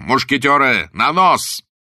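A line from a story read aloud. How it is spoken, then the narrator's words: Thunderous shout. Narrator (Russian): Блад закричал громовым голосом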